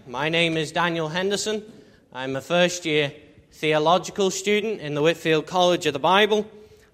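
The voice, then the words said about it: Liverpool accent. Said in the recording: “my strange accent, I'm not an Ulsterman. I'm originally from Liverpool”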